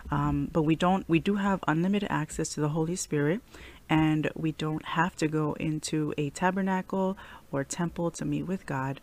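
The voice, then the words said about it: Sick-sounding voice. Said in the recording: “I am a little bit sick, so please pardon my voice.”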